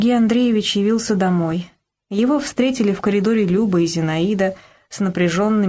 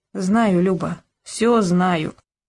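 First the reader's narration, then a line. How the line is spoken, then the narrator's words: Muffled, hollow voice. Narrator (Russian): Сергей Андреевич проговорил глухо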